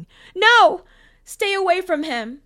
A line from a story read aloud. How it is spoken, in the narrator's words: She panicked, shouting